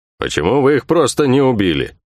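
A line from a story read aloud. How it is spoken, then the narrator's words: Rough, hurt grumbling. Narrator (Russian): проворчал Бух-Бух, и в его грубом голосе слышалась обида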